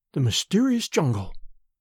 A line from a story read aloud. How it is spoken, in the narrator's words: she murmured